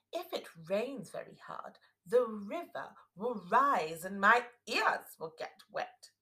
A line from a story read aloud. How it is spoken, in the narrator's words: she said